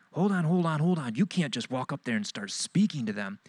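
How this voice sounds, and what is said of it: Hispanic accent. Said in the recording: “I hear this voice behind me in a Hispanic accent.”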